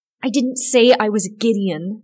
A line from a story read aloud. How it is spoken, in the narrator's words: snapped the boy